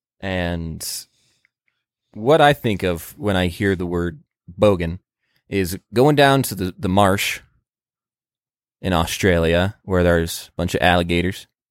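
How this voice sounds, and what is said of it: Put-on American Southern accent. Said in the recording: “I'm doing a southern accent for that”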